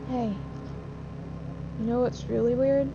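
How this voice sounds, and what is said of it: Quiet voice. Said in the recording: “in a quiet voice”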